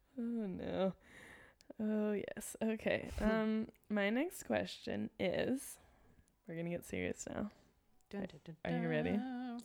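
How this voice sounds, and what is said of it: Young-sounding Los Angeles accent. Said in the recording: “I hear my own accent now... my like, oh my god, LA accent. Like I just sound like I'm 15 years old.”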